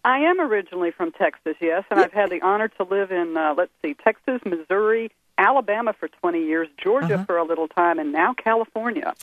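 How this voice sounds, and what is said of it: Slight Southern American drawl. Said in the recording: “I just love that slight Southern drawl that you've got.”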